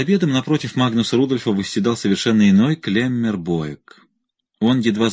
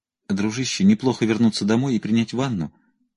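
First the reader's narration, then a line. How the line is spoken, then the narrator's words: Quiet reply. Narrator (Russian): тихо ответил Магнус Рудольф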